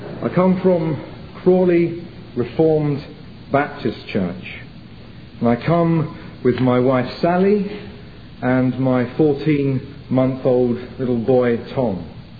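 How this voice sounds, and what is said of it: English accent. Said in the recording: “I come from England, as you may be able to tell from my accent”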